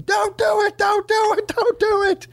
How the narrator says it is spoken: So he just started screaming

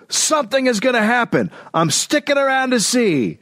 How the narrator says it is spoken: someone yelled

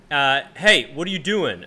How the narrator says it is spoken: the cop shouts at me and he goes

